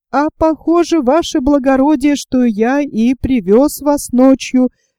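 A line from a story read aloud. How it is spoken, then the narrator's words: Cheerful coachman. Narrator (Russian): весело сказал извозчик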